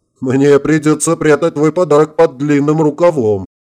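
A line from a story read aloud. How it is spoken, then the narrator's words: Laughing. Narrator (Russian): расхохотался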